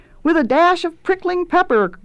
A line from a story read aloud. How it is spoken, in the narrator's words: yelled the apprentices